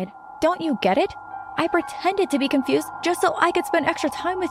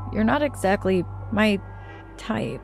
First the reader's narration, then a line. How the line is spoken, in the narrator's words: he said timidly